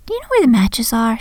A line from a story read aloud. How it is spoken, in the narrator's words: she asked sweetly